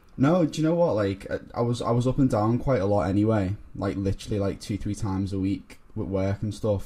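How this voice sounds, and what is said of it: Liverpool accent. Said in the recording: “from Liverpool, as you can tell by my accent.”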